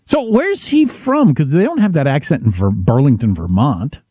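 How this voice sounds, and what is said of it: Usual voice. Nothing is said of it.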